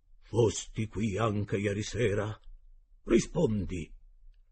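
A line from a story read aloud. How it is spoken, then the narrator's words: Commanding tone. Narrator (Italian): disse il cuoco in tono di comando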